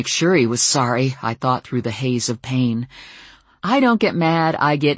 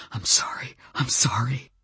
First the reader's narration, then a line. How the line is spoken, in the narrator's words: a desperate man whispering